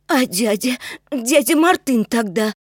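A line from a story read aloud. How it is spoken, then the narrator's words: Sobbing. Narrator (Russian): всхлипывая, сказал Макс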